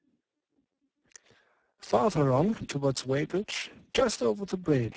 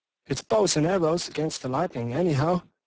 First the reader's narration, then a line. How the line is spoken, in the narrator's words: said the artilleryman